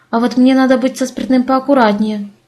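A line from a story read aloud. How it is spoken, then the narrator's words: Plain. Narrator (Russian): сказала Элоиза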